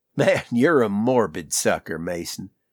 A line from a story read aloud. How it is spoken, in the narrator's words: Walther chuckled